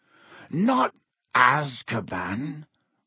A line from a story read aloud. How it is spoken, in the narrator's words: croaked Hagrid